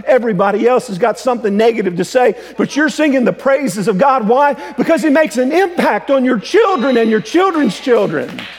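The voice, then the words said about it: Yelling, loud preaching voice. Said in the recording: “I don't know why I'm yelling at you today.”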